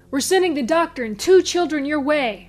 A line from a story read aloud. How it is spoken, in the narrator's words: bellowed Dennis to the security force